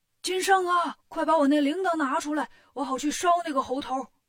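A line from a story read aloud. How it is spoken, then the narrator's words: Hurried shout. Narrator (Chinese): 赛太岁赶紧喊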